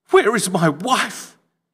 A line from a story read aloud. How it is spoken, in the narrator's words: he choked